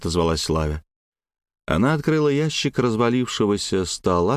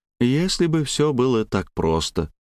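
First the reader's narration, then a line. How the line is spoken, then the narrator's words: Sad smiling voice. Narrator (Russian): грустно улыбнулась Славя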